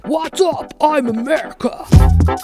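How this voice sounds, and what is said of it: Loud, shouty American bro voice. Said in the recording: “doing a voice ... whenever someone does an American voice, it's like a shouty bro”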